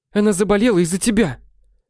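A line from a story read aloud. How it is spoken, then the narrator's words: Yelling. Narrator (Russian): орала Владислава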